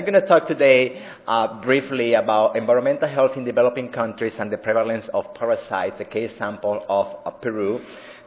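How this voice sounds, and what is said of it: Puerto Rican accented English. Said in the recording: “you hear my accent ... speak English with a Puerto Rican accent”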